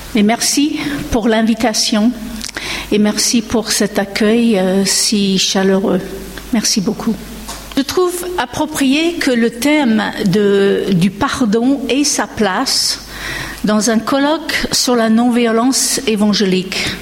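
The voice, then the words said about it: American accent speaking French. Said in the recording (French): “mon accent américain”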